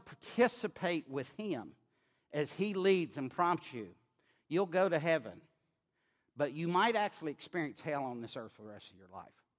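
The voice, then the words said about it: Mild rural drawl. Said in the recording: “I sound like a hick... I don't have the draw y'all got, but I have a draw, and I'm from Maryland, and they think I came from the backwoods”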